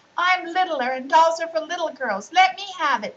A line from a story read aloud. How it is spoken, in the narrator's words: shouted Mary